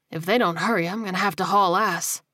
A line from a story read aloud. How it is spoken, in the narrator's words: he muttered